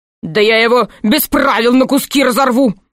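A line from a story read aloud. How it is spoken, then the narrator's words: Screaming. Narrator (Russian): завопил маркиз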